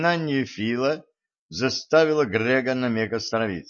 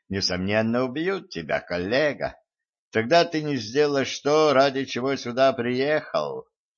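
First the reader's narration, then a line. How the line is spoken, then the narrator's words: Phlegmatic muffled grumble. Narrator (Russian): флегматично пробурчал из-под колеса Митсубиси Фил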